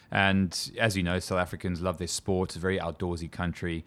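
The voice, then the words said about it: South African accent. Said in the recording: “I grew up in South Africa, as you can probably tell from my horrible twang in my voice”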